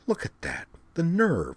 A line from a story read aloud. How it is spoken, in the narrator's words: Azalin mutter